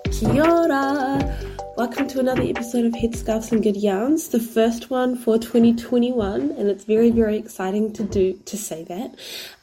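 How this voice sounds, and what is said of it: Congested, blocked-nose sick-sounding voice. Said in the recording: “if I sound really sick... my sinuses are really, really blocked at the moment, so I sound horrible and I sound really sick”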